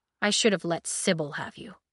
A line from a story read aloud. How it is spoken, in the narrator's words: he muttered